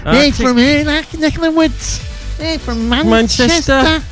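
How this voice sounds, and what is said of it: Put-on Manchester accent. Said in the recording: “That's the best Manchester accent I've ever done.”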